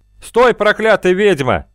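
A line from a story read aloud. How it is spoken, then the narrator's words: Warrior shouting. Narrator (Russian): крикнул один из воинов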